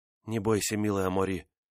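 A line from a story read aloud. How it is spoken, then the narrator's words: Female whisper. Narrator (Russian): шепнула она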